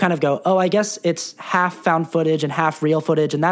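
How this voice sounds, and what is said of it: Usual voice. Nothing is said of it.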